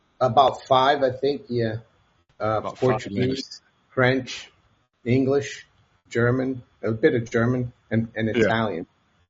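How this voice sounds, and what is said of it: Brazilian-accented English. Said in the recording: “I'm originally from Brazil ... I haven't really lost my accent”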